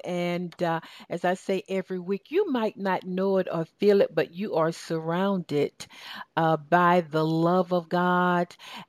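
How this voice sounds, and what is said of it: Southern Georgia accent. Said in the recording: “my Southern Georgia accent”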